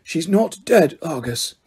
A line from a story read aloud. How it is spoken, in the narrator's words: he said softly